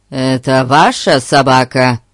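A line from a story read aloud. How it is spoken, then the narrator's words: Stern question. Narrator (Russian): строго вопросил мужчина по имени Билл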